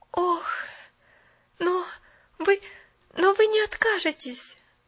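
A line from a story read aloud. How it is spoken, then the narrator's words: Panicked pleading. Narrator (Russian): взмолилась Поллианна в мгновенной панике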